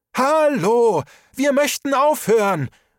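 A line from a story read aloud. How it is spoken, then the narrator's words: Loud call. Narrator (German): rief Trisha laut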